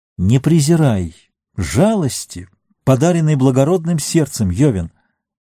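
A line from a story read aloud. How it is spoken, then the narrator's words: Exclamation. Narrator (Russian): воскликнул Фарамир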